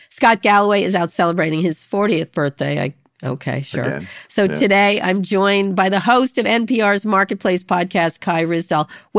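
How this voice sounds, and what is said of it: Voice sounding a little sick. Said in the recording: “I sound a little sick.”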